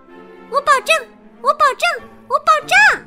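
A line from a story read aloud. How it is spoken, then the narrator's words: Loud. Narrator (Chinese): 安吉拉大声回答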